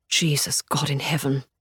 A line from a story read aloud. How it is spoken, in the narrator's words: Hubert whispers, his voice stretched thin by the agony of prayer